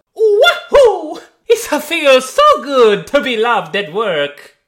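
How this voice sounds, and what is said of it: Exaggerated Italian plumber character accent. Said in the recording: “Everyone love the accent of Mario, the Italian plumber.”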